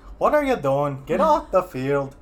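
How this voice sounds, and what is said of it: Put-on old Irish priest accent. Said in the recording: “an old Irish priest go ... I just do terrible accents ... I thought that was pretty good. It was better than anything I could have done.”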